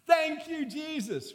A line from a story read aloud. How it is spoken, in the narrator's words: you'd be jumping, you'd be shouting